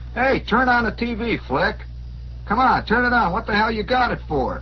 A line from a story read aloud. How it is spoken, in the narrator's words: The red-faced one shouted